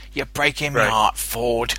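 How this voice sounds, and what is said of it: British movie henchman voice. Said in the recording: “typical British henchmen that you see”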